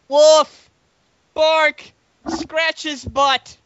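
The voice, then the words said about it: Silly barking character voice. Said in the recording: “just change voice ... did a perfect impression of Barky”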